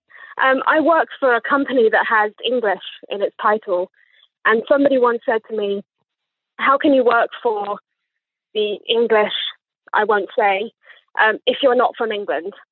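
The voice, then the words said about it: Posh English accent. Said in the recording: “as you can hear from my accent, I was definitely born here because I would not pretend to have this accent if I wasn't from here. I sound like a posh twat”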